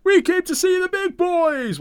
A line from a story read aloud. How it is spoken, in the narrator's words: Nash screams sarcastically